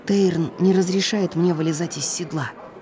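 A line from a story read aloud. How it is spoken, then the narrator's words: Quiet. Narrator (Russian): тихо сказала я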